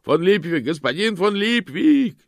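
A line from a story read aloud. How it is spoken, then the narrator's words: Shout. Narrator (Russian): закричал кто-то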